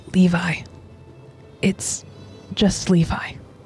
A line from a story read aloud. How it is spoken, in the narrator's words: the boy whispers